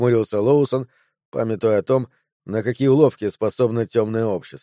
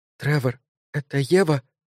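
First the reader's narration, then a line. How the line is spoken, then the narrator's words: Trembling whisper. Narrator (Russian): спросила Энн дрожащим шепотом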